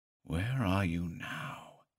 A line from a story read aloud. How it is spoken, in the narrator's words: the PI repeated in a low voice